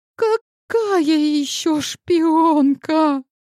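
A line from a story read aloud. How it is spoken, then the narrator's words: Wailing. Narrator (Russian): взвыла Айрин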